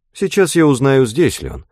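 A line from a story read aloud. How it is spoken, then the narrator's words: Much more polite tone. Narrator (Russian): сказала она гораздо более вежливым тоном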